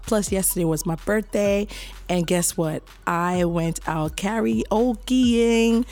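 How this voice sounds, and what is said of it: Raspy, hoarse voice. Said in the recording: “my voice sounds very raspy, and that's because I have a bit of a cough”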